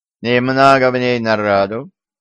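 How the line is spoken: Lazy question. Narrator (Russian): лениво спросил шеф

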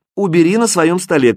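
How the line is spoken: Mother shouting after. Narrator (Russian): крикнула вдогонку мама

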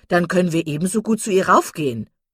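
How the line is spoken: Called out. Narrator (German): rief Miss Steele

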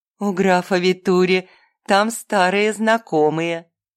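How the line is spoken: Purring. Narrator (Russian): промурлыкала Рита

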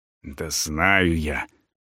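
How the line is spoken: Annoyed grumble. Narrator (Russian): с досадой буркнул министр

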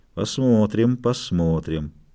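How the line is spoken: Ominous mutter. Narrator (Russian): зловеще пробормотал

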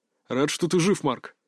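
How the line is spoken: Through gritted teeth. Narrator (Russian): процедил Арс

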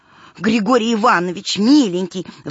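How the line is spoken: Agitated woman speaking. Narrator (Russian): взволнованно заговорила заведующая Вера Филипповна

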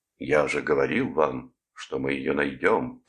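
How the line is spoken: Growled, feigning manliness. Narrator (Russian): прорычал, пытаясь казаться образцом мужественности

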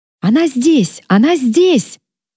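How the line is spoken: Shout from behind. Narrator (Russian): крикнул кто-то за моей спиной

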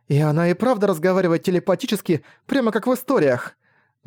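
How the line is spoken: Exclaimed. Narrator (Russian): Воскликнула Тинами

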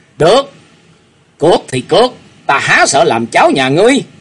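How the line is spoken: Flushed angry shout. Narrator (Vietnamese): hai má của Dương Cảnh đã dồn căng máu, y buộc miệng quát lên

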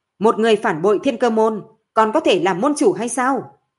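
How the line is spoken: Loud rebuke. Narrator (Vietnamese): Kim Võ Húc lớn tiếng khiển trách

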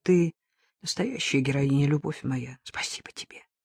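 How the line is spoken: Quiet. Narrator (Russian): тихо добавил

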